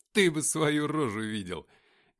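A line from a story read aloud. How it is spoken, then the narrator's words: Laughing uncontrollably. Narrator (Russian): не сдержался я и залился хохотом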